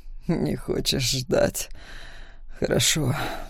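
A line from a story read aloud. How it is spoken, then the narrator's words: Breathy exhale. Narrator (Russian): выдохнул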